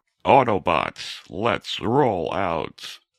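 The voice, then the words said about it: Deep robotic Optimus Prime voice. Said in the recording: “Optimus Prime... I can just do that voice”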